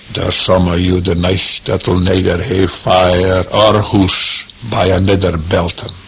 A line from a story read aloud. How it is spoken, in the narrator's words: said in a low, thick voice